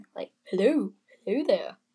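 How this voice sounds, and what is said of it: Slight put-on British accent. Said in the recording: “Getting a little British accent, I think.”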